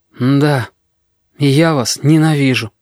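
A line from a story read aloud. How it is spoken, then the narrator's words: Tired, tearful boy. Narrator (Russian): мальчишка поднял мокрое лицо, сказал устало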